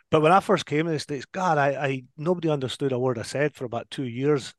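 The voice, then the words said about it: Diluted Scottish accent. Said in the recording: “my accent's very much diluted compared to you two. Obviously, you're still back in Scotland”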